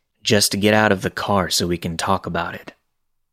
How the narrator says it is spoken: He says flatly

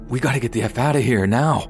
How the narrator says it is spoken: I told E in a hushed but anxious tone

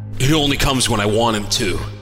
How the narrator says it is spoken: he snapped

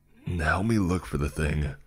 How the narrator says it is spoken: I growled

